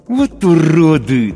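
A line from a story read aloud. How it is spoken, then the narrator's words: Through gritted teeth. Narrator (Russian): цежу сквозь зубы я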